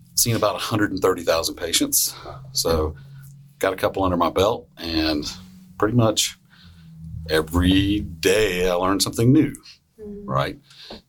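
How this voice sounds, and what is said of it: Southern American accent. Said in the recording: “You might have the best radio voice so far. ... I have to get rid of the accent, the southern accent.”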